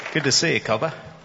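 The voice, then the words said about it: Fake Australian accent. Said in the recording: “he has an Australian accent, and he turns it on. ... It's fake, dude. It's fake.”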